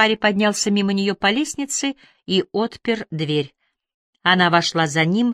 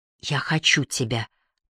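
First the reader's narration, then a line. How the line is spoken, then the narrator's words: Whisper. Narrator (Russian): прошептала она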